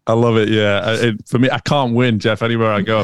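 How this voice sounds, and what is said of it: Manchester accent with American tinge. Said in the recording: “a guy with a little bit of a Manchester accent, but then you've got this American bit that comes through there as well”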